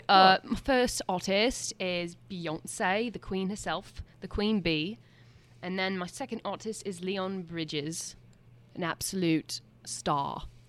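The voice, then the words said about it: Put-on British accent. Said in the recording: “you have to talk in a British accent ... Should I keep going in my accent?”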